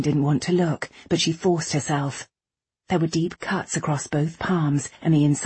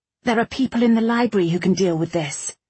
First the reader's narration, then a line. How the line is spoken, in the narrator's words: she said firmly, desperately praying that she wasn't lying to herself